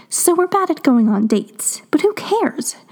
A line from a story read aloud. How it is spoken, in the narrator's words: blurted out